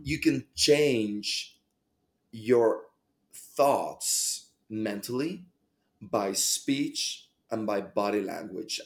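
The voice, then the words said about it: Noticeable non-local accent. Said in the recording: “mesmerized by your accent... Where's that guy coming from?... What part of the world are you from?”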